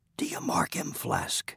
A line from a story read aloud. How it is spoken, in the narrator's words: whispered Stubb